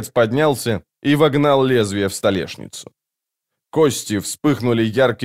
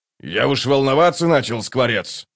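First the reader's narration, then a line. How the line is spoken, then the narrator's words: Grumbling. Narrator (Russian): проворчал первый кулак Дуджик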